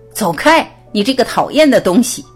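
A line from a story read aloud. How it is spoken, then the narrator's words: Loud angry yelling. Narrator (Chinese): 伍德里莱先生大声嚷嚷起来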